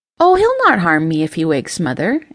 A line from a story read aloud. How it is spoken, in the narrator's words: Ember said